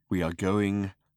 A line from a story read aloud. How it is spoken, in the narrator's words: said Slarty Bartfast in a slow, measured voice